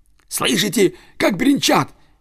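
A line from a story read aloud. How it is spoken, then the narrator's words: Fox's shout. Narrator (Russian): крикнул лис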